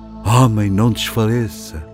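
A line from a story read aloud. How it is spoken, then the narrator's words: Tearful murmur. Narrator (Portuguese): Um preto chorava ao murmurar-lhe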